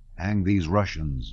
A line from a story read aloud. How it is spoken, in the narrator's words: muttered a German